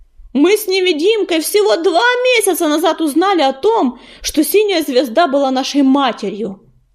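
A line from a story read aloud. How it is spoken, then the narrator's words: Loud stone voice. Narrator (Russian): громко продолжал камень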